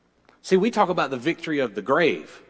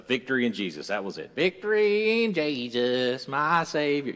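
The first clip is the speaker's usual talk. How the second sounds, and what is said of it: Put-on southern drawl, singing. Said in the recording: “That's my southern drawl. That's about as good as it sounds.”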